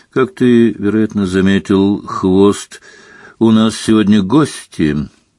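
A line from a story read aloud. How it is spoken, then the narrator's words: Lazy drawl. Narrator (Russian): лениво проговорил Снег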